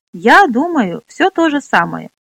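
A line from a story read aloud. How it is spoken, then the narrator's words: Laughing. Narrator (Russian): засмеялась Минолли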